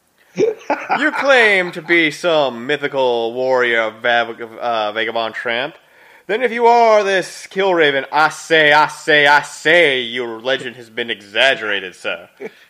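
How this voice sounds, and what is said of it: Foghorn Leghorn impression. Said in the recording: “I had a firm Foghorn Leghorn vibe going on.”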